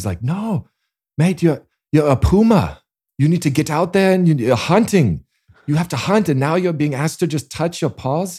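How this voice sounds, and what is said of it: Poor put-on South African accent. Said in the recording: “that's a terrible South African accent.”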